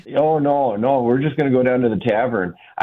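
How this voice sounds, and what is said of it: Put-on Wisconsin accent. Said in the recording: “I'm coming back home to Wisconsin, and I miss the accents already”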